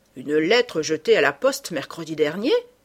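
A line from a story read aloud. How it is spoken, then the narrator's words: Mayor exclaiming. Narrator (French): s'écria le maire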